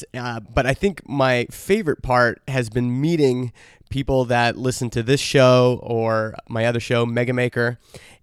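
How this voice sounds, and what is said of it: Slightly raspy voice. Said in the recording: “my voice is a little bit raspy from all of the late nights and hanging out”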